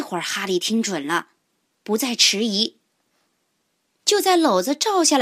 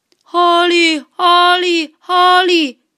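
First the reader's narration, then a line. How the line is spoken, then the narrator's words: Repeated calling. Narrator (Chinese): 有人在叫他的名字，一声接着一声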